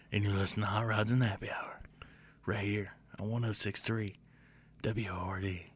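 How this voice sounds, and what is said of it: Raspy late-night radio DJ voice. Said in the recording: “You can't get raspy enough with me... Don't out rasp me, boy... That sounded like a late night disc jockey... You sound like one of them cheesy strip club disc jockeys”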